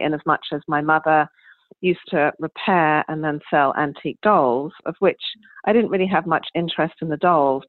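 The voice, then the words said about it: English accent. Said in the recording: “As you can tell from my accent, I was raised in England”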